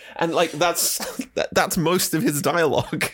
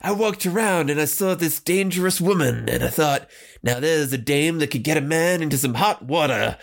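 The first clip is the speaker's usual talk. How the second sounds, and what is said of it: Imitates another person's voice. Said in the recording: “doing their best Humphrey Bogart impersonation”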